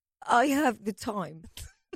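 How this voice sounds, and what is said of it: Attempted German-accented English. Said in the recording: “How do you do a German accent? ... It's like a German English accent.”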